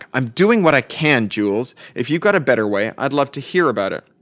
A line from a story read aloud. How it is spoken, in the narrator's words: From the kitchen, Lil barked back